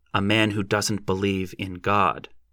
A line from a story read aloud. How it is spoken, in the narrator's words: I said firmly